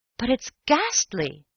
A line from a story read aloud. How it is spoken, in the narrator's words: I cried